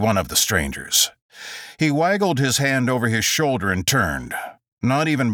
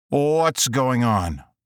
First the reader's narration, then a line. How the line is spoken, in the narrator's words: asked Adam